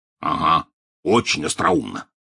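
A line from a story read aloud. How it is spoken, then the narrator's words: Grumbling. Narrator (Russian): проворчал Хагрид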